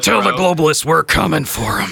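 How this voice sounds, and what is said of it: Imitates another person's voice. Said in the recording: “Pretty good impression.”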